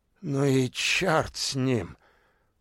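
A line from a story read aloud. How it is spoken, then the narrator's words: Angry old man, through teeth. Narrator (Russian): зло процедил старик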